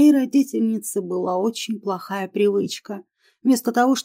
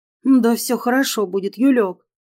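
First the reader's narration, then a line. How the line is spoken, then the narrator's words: Reassuring mother. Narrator (Russian): заверила меня мамка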